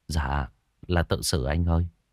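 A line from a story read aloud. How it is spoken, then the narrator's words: Sighing reply. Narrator (Vietnamese): Thằng kia thở dài một tiếng rồi trả lời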